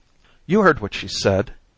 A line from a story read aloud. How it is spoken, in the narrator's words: cried Mrs